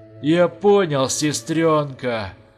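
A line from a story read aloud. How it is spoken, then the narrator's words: Joyful hoarse rasp. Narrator (Russian): радостно прохрипел он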